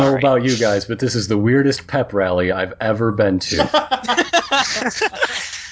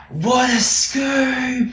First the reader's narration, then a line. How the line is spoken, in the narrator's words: Tavly just shouts at the top of her voice